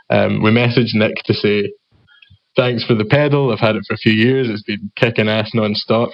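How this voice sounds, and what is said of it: Scottish accent. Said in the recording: “my accent ... the Scottish accent”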